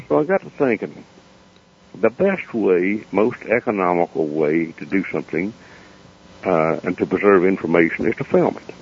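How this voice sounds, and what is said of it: Hillbilly Southern US accent. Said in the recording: “my hillbilly accent”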